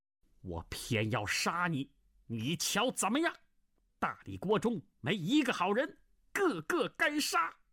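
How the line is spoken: Furious shout. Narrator (Chinese): 那胖老妪大怒，喝道

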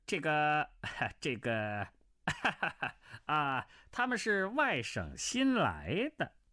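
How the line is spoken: Wry laugh. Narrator (Chinese): 刘知宇苦笑道

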